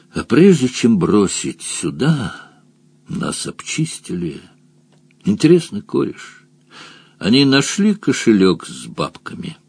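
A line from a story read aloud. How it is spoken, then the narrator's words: Sad. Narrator (Russian): печально произнес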